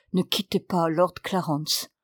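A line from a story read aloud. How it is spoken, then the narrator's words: Low voice. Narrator (French): j'ajoutai à voix basse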